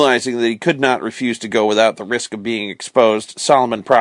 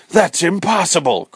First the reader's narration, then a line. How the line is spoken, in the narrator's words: cried Mr